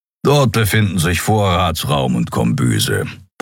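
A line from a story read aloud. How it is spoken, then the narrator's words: Grumbling. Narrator (German): brummte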